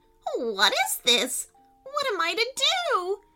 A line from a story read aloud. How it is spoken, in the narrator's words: she cried